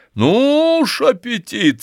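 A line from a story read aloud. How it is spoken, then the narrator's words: Laughing. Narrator (Russian): сказал Степан Аркадьевич, смеясь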